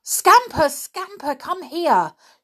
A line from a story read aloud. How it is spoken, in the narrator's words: shouted Peter